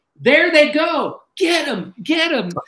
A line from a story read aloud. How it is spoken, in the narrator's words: my wife comes out of the house and starts screaming